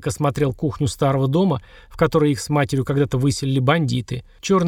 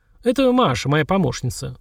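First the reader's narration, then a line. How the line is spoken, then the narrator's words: Dry introduction. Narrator (Russian): сухо отрекомендовал Олег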